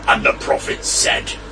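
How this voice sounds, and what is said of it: Dramatic narrator voice. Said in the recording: “I'm going to do it in another dramatic voice, but slightly different.”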